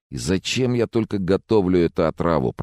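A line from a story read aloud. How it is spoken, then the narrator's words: Groaned. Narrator (Russian): простонал он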